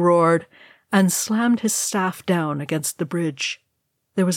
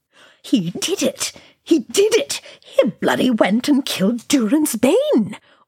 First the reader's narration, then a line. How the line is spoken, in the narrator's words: Oin gibbered wildly, jumping up and down on the spot